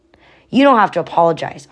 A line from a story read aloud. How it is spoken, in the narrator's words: Oscar said firmly